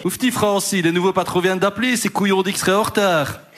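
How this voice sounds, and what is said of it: Weak attempt at Liège accent. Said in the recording (French): “je ne sais pas faire l'accent liégeois ... Moi, je connais pas l'accent liégeois ... t'as pas l'accent”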